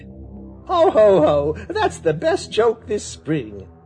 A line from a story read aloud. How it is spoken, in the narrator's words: shouted Jerry Muskrat, and laughed until he had to hold his sides